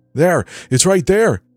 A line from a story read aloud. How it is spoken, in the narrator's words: Leah shouted